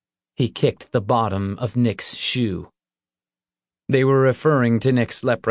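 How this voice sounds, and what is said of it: Usual voice. Nothing is said of it.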